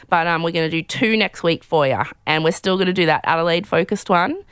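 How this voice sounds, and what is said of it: Strained, failing voice. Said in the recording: “you can already tell my voice is about to die just at the end of this”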